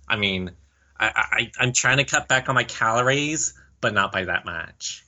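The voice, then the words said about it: Valley Girl character voice. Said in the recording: “your impression of Monty going into Valley Girl”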